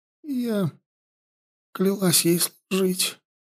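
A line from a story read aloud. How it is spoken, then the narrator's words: Forced out, catching breath. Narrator (Russian): выдавил Янди, отдышавшись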